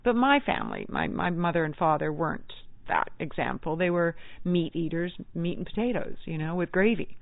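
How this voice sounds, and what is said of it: Scottish accent. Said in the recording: “I'm from Scotland, I shared my wee Scots accent”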